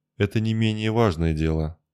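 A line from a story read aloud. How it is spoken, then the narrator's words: Irritated rebuke. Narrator (Russian): одернула старика Арана, которой надоело постоянное ворчание мага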